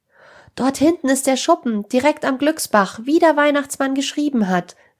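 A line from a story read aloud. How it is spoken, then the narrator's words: Joyful call. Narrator (German): rief Jonas mit freudiger Stimme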